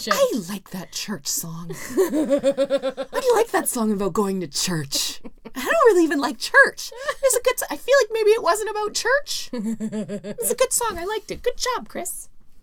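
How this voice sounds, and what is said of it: Imitates another person's voice. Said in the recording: “It's my impression of your mom.”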